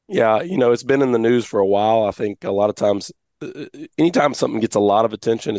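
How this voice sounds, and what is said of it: Hoarse, raspy voice. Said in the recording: “I'm losing my voice. ... I'll give you all my laryngitis voice.”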